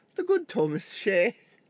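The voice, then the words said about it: Put-on Irish accent. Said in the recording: “In my head, I just hear like an Irish accent.”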